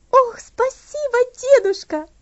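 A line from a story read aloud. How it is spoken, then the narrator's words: Joyful reply. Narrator (Russian): радостно ответила она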